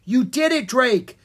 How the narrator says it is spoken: Jean cried

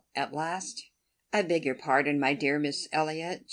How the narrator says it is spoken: she cried in her natural tone of cordiality

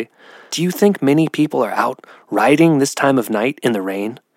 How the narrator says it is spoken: Blackberry replied in a whisper

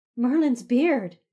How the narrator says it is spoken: she exclaimed while clutching her chest

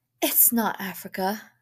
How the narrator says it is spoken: she said breathlessly

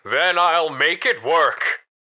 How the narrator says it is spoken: David screamed out defiantly

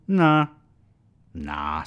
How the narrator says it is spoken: sneered the bartender

